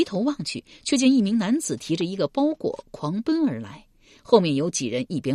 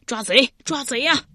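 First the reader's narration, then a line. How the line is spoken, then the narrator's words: Shouting for help. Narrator (Chinese): 有人呼喊道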